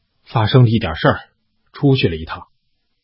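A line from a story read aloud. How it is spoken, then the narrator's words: Soft. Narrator (Chinese): 李洛轻声道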